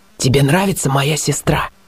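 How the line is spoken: Whisper. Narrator (Russian): он сказал шепотом

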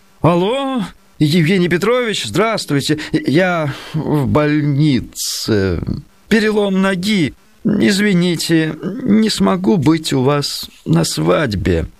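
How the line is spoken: Moaning into phone. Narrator (Russian): почти простонал в трубку тамада

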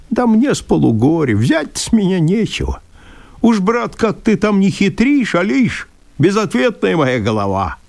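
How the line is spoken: Laughing man. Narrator (Russian): Мужик рассмеялся

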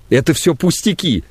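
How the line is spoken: Sobbing. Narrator (Russian): зарыдала Надежда Федоровна

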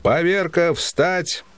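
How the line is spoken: Shouting. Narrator (Russian): веселый опять появился в бараке и, войдя, закричал

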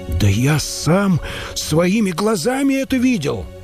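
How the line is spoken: Exclaimed. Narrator (Russian): воскликнул монах

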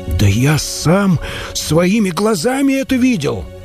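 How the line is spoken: Monk exclaiming. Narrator (Russian): воскликнул монах

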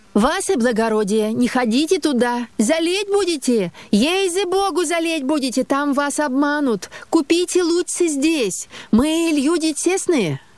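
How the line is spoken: Shouted in unison. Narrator (Russian): провожатые закричали все в один голос

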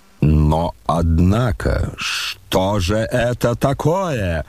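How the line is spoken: Sudden angry exclamation. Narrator (Russian): грозно и внезапно воскликнул рассердившийся Ардалион Александрович

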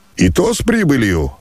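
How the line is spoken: Cheerful shout. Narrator (Russian): весело крикнул черноглазый мещеряк

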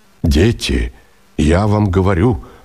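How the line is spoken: Quick calm exclamation. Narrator (Russian): воскликнул скоро, но спокойно

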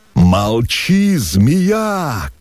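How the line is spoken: Hoarse shout. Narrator (Russian): крикнул он хрипло, весь подавшись вперед

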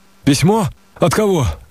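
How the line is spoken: Shout. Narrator (Russian): закричал я

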